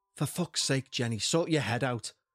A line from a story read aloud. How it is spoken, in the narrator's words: muttered to myself